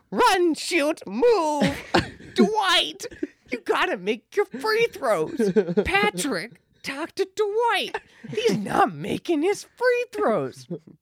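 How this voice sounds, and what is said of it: Impression of Stan Van Gundy. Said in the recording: “do an impression of Dwight Howard doing an impression of Stan Van Gundy”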